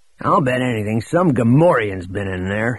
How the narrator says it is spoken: he growled to Droma

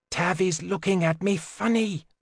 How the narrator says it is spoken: Through clenched teeth, Janine whispered

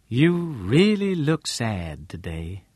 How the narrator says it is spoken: Lane said in her smooth, deep voice

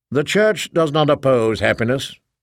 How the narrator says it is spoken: I said dryly

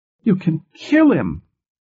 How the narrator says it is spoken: Her voice was shrill with hysteria

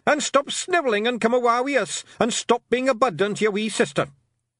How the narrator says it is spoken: shouted Rob Anybody

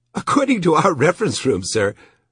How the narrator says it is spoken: said in a giggling voice

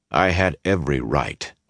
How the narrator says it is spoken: he said firmly

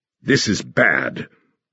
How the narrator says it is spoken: Reinhardt said harshly

